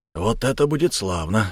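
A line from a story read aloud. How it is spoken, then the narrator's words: Excited mutter. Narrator (Russian): возбужденно пробормотал клинок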